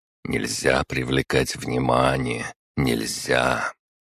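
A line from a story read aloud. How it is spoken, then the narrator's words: Repeated muttering. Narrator (Russian): Снова и снова я слышал его бормотание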